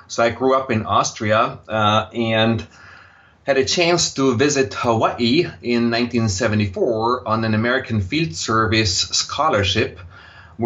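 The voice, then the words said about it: Slight Austrian accent. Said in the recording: “you will detect a slight accent in my voice, and that accent is Austrian”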